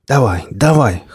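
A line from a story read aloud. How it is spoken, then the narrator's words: Wheezing from behind. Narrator (Russian): хрипел сзади сталкер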